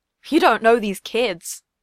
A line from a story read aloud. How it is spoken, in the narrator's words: Ben chuckled